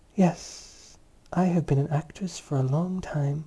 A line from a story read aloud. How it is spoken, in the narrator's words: said gently